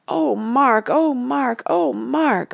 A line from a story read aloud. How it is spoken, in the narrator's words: moaned Randy, beginning to cry